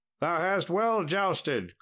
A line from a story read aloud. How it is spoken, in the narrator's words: cried Sir Tristram to the knight